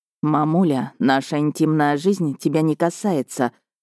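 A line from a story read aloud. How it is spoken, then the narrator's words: Through gritted teeth. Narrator (Russian): сквозь зубы ответил Миха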